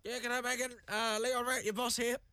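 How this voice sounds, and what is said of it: Impersonating his boss's voice. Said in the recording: “I had to do an impersonation of Leon. Impersonation's not my strong point”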